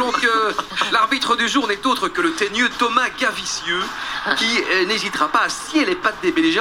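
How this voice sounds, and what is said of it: Usual voice. Nothing is said of it.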